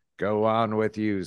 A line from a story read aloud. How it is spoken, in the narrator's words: said others